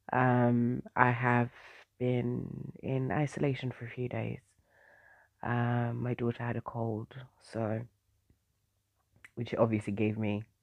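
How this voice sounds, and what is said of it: Strained, fading voice. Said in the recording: “My voice is a bit, it's kind of going a little bit.”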